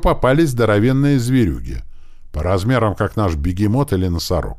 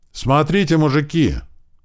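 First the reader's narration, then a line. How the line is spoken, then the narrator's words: Exclamation. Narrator (Russian): воскликнул Слива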